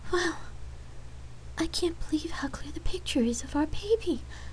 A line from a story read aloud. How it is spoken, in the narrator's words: Lark tearfully replied, in astonishment